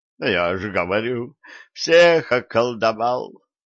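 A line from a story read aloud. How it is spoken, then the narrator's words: Groaning. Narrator (Russian): простонал боярин Жеребцов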